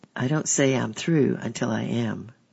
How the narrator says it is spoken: argued weakly

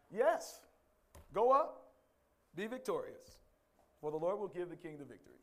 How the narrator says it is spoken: Micaiah replied sarcastically

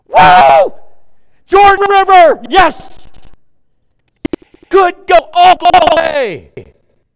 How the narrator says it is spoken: Wouldn't you be shouting

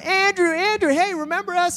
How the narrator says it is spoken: they're all yelling

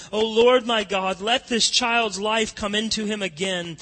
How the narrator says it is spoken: Elijah cried out to the Lord

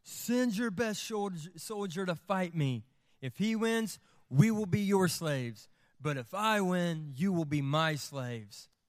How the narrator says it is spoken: Goliath shouted

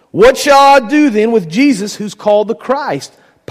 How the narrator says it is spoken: Pilate asked

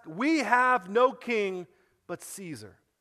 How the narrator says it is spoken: the chief priest shouted

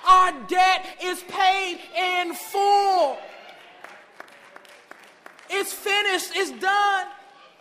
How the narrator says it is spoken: Jesus, while he was on the cross, yelled out

